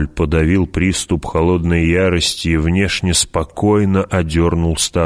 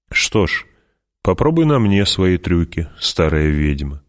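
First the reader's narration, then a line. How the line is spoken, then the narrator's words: Plain. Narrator (Russian): сказал Пауль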